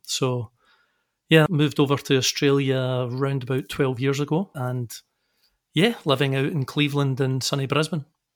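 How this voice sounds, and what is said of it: Scottish Glasgow accent. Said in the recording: “they'll notice something different in you ... with that accent? ... I'm from Scotland ... I'm from a sunny little suburb called Glasgow”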